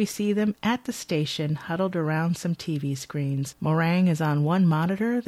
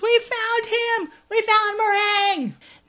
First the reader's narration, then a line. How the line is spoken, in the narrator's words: hollers